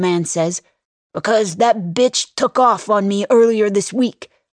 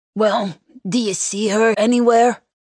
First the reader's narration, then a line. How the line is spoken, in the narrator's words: He grunts